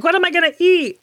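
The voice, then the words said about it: Ray Romano impression. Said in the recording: “my Ray Romano impression. I don't know if I did a good job.”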